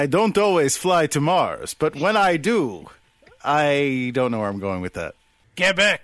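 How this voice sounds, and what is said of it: Usual voice. Nothing is said of it.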